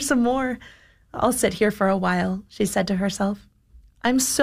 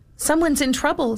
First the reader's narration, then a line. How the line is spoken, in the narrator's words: squeaked the mouse